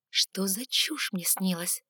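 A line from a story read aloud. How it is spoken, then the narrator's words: Mumbled. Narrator (Russian): пробормотала я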